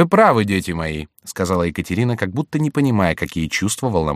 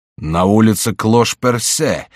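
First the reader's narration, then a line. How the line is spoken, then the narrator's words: Exclaimed. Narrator (Russian): воскликнул король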